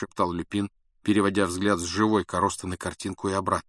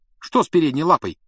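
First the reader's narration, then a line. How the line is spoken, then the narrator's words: Sharp question. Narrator (Russian): резко спросил Рон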